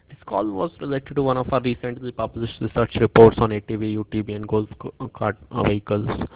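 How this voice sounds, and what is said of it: Very thick accent. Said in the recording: “you have a very thick accent”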